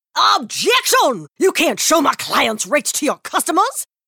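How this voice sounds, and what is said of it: Old-timey Southern lawyer voice. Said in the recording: “an old-timey Southern lawyer in a courtroom”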